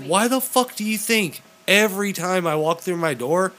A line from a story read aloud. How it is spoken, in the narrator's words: Missy yells at me